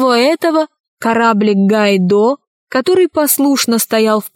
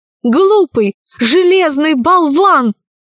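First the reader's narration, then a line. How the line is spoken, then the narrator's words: Shouting. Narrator (Russian): закричала тогда Ирия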